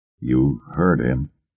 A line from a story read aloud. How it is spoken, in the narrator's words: Groves said thickly